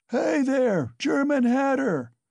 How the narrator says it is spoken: bawling at the top of his voice

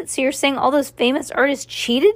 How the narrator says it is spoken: She cried out

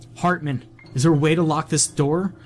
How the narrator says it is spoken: yelled

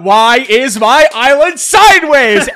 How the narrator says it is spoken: Knuckles screams out

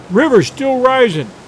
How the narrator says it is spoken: cried

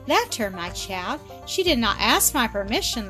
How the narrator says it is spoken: laughed Mrs

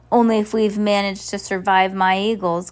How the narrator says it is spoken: Count Olaf said with a growl

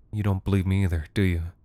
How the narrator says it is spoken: It took her mother a full 90 seconds to murmur an answer

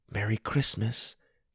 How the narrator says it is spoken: whispered

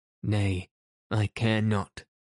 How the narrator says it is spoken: moaned Dick

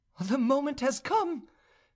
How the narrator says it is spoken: cried joyfully

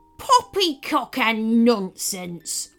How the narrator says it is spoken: roared the White Pirate

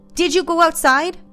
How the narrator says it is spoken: shouted

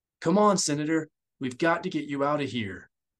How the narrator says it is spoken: he said urgently

